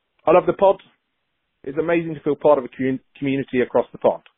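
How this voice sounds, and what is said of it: Fake put-on accent. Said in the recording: “fake accents ... It's a great accent.”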